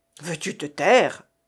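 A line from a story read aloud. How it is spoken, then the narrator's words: Imperious exclamation. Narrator (French): s'écria Argot d'un air impérieux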